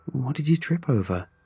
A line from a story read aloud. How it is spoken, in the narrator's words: Rachel asked, still chuckling